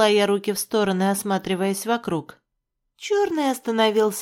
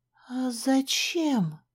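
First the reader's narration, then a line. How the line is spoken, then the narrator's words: Breathed out. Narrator (Russian): выдохнула я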